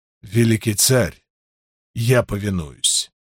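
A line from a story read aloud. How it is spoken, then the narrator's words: Forced out reluctantly. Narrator (Russian): наконец выдавил он из себя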